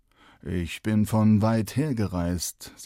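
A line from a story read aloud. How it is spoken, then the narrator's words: Strange rasping voice. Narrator (German): sagte der Mann mit seltsam schnarrender Stimme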